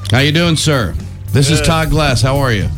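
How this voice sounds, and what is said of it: Deliberate radio announcer voice. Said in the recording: “doing my radio voice ... not like I'm not doing the over-the-top one ... My voice is toughening up a little”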